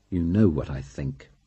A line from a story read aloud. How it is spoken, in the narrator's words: said coldly